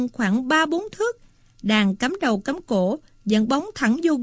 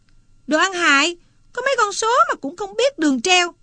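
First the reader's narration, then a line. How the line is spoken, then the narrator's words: Sudden shout. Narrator (Vietnamese): Chợt nó la lên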